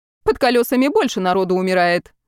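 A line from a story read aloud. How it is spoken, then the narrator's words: Irritated dismissal. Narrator (Russian): раздраженно отмахнулась Ольга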